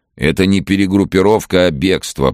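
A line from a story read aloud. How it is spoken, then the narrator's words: Laughing, smoky bass. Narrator (Russian): прокуренным басом захохотал мужчина в черной кольчуге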